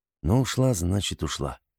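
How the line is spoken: Calm, curt, final. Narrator (Russian): спокойно произнес Артем и как отрубил

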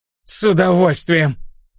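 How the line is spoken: Breathless wheeze. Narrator (Russian): Тяжело дыша прохрипела Дестини

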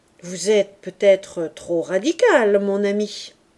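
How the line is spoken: Priest's conciliatory interruption. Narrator (French): interrompit l'abbé d'une voix conciliante

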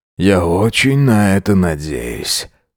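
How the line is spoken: Sigh. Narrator (Russian): вздохнул Джек

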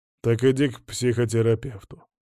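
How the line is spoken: Grumbled. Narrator (Russian): проворчал он

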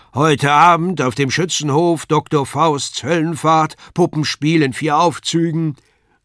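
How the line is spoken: Loud public announcement. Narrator (German): der Ausrufer laut verkündigte

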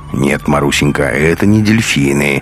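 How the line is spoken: Lecturing correcting tone. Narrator (Russian): менторским тоном поправил девочку Бунин

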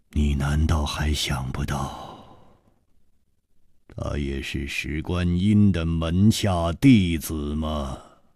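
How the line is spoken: Long sigh, deliberate words. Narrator (Chinese): 楚留香长长的叹了一口气，一字字的说

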